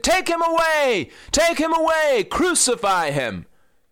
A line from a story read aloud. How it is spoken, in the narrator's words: they shouted